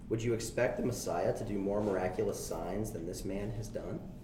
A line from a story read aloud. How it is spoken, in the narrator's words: the crowd whispering